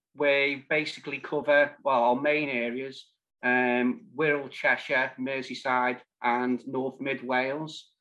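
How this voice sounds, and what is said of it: Slight Liverpool twang. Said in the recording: “I did detect a slight twang in your accent from sort of over that way. I'm married to a Liverpool lass myself, so I did pick up the twang.”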